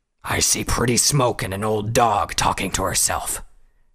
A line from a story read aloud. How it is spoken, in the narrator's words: Hazrock growled